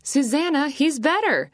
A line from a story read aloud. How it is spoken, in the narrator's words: Josue exclaimed, out of breath